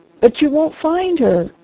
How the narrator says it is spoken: gasped the doctor

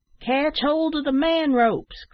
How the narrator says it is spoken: cried

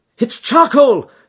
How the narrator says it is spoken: he cried

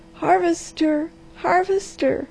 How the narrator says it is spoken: she cried

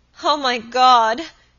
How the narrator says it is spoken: she cried

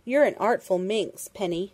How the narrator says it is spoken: Dundee chuckled

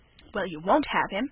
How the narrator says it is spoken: exclaimed Margaret Sinton

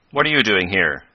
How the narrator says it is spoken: Professor Hylop, who was known to Professor Bumper, stepped forward and asked sharply

